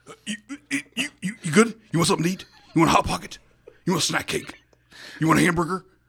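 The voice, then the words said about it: Imitates another person's voice. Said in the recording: “my Greg Nichols impression.”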